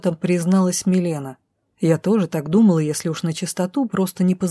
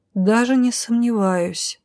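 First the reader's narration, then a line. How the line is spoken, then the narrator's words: Heavy sigh. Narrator (Russian): тяжело вздохнула Роша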